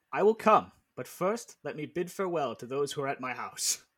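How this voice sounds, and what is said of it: Line read in a put-on accent. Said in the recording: “he said it in that accent”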